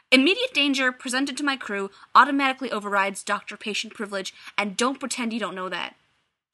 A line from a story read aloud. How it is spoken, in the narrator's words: she snaps